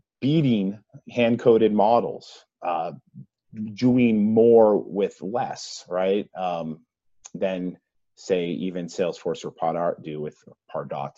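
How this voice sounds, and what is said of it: Massachusetts accent, dropped R. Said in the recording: “excuse my Massachusetts accent there as I drop the R.”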